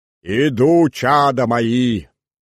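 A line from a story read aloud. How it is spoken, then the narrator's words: Deep bishop's bass. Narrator (Russian): возговорил старос архиерейским басом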